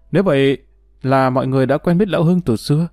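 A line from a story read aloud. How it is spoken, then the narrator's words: Delighted. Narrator (Vietnamese): Tú hớn hở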